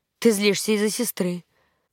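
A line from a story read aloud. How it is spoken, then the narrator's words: Calm remark. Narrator (Russian): спокойно заметил он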